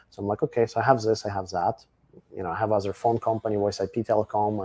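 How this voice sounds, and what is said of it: Heavy Soviet-region accent. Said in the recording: “heavy accent coming from USSR”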